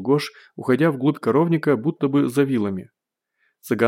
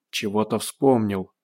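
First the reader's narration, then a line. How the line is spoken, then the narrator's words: Conspiratorial whisper. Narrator (Russian): заговорчески прошептал цыган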